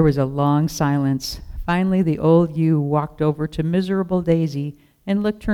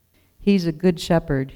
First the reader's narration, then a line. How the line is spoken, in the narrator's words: said